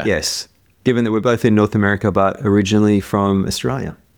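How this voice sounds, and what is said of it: Softened Australian accent. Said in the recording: “described my accent as mid-Pacific ... there's the old sort of mid-Atlantic kind of, you know, English slash American kind of nowhere accent ... your accent is still there ... it's definitely lost its edge”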